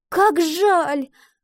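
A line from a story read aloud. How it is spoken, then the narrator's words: Girl's exclamation. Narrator (Russian): воскликнула девочка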